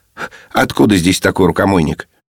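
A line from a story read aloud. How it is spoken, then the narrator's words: Cheerful question. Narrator (Russian): Спросил весело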